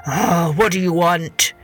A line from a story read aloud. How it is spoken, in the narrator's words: the old man growled